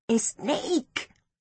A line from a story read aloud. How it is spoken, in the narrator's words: whispered Poloko